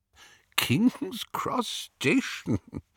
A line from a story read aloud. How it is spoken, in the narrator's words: Dumbledore was chuckling immoderately